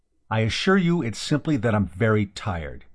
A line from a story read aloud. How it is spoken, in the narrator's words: he said sharply